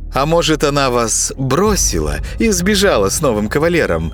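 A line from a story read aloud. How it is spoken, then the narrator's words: Laughing. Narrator (Russian): Засмеялась маска совы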